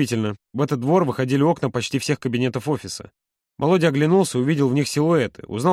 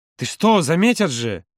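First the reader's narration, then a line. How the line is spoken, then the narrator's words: Exclamation. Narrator (Russian): воскликнул Юра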